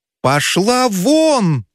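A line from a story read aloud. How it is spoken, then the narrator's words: Shouted. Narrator (Russian): закричал Федяшев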